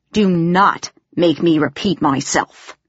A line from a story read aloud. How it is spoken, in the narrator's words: growled